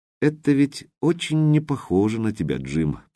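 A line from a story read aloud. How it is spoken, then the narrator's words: Soft, gentle. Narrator (Russian): продолжал Смайли все тем же мягким тоном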